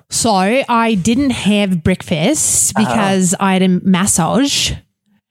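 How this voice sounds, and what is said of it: Attempted Australian accent. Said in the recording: “Can we try our Australian accents?”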